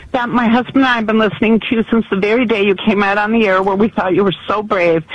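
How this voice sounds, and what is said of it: Choked-up, emotional voice. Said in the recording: “I'm all choked up”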